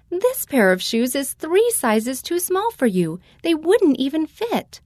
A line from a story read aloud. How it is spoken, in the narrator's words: My mother laughed and said